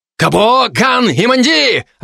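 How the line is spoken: Loud bark. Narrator (Russian): рявкнул я

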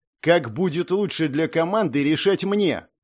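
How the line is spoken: Barking, female boss. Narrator (Russian): рявкнула шеф

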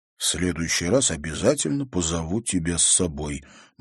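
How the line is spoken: Gloomy promise. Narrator (Russian): мрачно пообещал Тимофей

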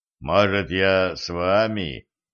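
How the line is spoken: Unsure mumble. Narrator (Russian): неуверенно пробормотал Жан

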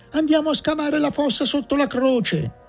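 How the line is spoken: Distant shout from dark room. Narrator (Italian): si udì gridare dal fondo buio della stanza

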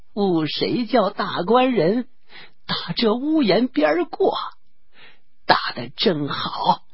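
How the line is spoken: Laughing. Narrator (Chinese): 那婆子笑道

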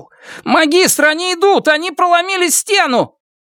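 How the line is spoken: Shout. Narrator (Russian): Кто-то закричал

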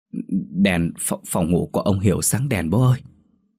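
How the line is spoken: Tearful stammering. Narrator (Vietnamese): Tôi mếu máo lắp bắp

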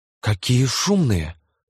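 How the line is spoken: Exclamation. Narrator (Russian): воскликнула Лиззи

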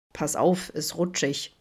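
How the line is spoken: Amused grumble. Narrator (German): brummte er belustigt

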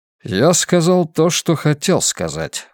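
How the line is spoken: Cold. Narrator (Russian): холодно ответил Гнездилов

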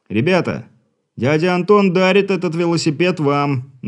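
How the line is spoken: Deep breath, loud shout. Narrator (Russian): Набрав в легкие побольше воздуха, закричал Игорь

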